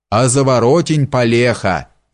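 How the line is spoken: Sudden yell. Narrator (Russian): завопил вдруг обалдуй

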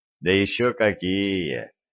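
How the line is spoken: Young man's heavy sigh. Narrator (Russian): тяжко вздохнул юноша

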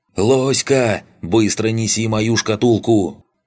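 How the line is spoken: Yelled. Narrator (Russian): Проорал староста

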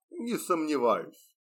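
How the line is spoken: Smirking grunt. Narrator (Russian): хмыкнул Освальд

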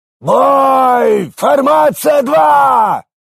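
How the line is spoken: Commander barking. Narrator (Russian): Гаркнул главнокомандующий

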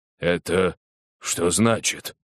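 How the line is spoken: Bark. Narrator (Russian): наконец рявкнул Лестрейд

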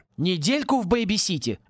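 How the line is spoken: Indignant exclamation. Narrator (Russian): возмущенно воскликнул Пори

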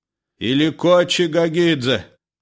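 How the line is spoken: Wailing shout. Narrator (Russian): завопил Иларион

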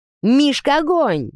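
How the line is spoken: Sudden shout. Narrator (Russian): крикнул вдруг кто-то

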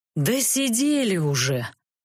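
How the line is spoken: Sighing. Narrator (Russian): вздохнул архимаг

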